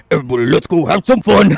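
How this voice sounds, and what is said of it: Imitates another person's voice. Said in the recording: “you do a good impression of him... my impression of him is like... I kind of make it a little more Fred Flintstoney”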